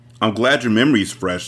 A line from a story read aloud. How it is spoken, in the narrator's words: Steven said